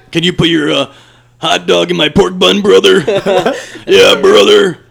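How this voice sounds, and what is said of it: Imitates another person's voice. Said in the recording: “you do the best Hulk Hogan I've ever heard ... perfect”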